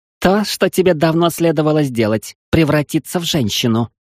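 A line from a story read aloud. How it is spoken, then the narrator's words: Snapping back. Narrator (Russian): огрызнулась Селани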